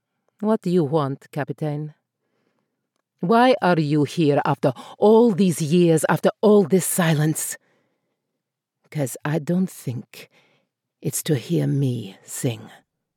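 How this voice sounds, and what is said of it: Shifting put-on accent, turning dark. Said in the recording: “that did become quite dark at the end ... that accent choice ... It was a bit all over the place ... She moved through the continent ... Moved through many continents that don't really exist.”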